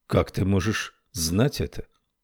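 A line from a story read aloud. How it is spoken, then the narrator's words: Calm. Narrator (Russian): так же спокойно говорил Нуми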